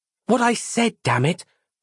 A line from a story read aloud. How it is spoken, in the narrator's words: cried Roz